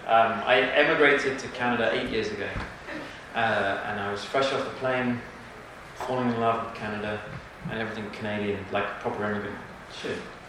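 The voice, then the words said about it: English accent. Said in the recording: “Can you tell where I'm from my accent? ... England.”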